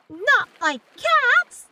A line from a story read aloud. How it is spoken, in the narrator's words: cried the mouse in a shrill, passionate voice